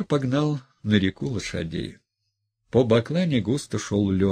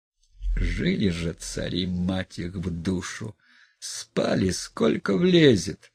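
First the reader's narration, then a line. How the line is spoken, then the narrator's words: Sleepy mumbling. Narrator (Russian): Макар, засыпая, забормотал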